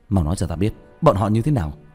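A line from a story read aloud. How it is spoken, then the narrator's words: Shocked shout. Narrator (Vietnamese): Sửng sốt, quát lên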